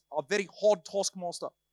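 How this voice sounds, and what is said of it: Put-on South African accent. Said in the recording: “in the accent of your campus pastors ... I love the South Africans”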